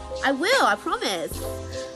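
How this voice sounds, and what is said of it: Sudden put-on accent. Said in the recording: “I don't know why I busted out in an accent.”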